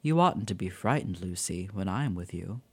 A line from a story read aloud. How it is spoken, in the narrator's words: he said gently